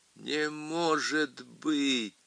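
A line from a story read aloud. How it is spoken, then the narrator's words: Groaned. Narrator (Russian): простонал Коттон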